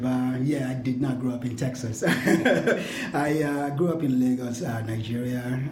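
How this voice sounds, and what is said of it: Non-Texan, non-Chicago accent. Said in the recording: “You're clearly not from Texas or even from Chicago, as I can tell by your accent.”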